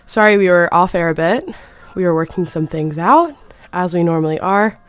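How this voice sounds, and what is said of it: Breathless, out of breath speech. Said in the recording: “Oh my god, I'm out of breath. Running from Brennan's to the station is not for the faint-hearted.”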